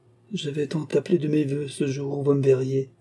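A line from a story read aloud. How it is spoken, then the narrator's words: Moaned. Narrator (French): gémit-elle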